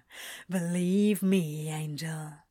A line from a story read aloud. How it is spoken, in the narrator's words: says Crowley with a dark chuckle